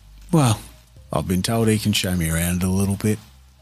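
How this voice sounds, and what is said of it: Put-on Australian accent. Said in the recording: “trying to keep this Aussie accent thing like believable”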